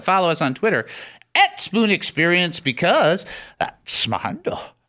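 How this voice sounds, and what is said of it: Poor imitation of another person's voice. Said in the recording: “That's my very poor Sean Connery impersonation.”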